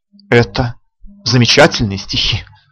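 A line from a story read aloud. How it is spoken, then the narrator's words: Sighing. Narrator (Russian): вздохнула Искра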